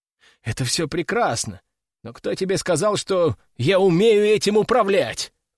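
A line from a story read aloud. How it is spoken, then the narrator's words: Exclamation. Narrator (Russian): воскликнул я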